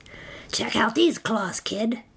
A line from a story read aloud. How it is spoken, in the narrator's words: a third voice from under the bed rasped